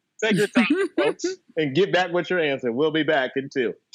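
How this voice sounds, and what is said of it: Imitates another person's voice. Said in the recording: “That's my Chuck Woolery impersonation.”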